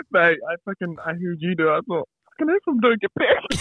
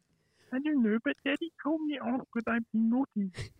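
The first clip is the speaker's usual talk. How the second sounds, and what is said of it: Childish baby voice. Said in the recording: “do the baby voice”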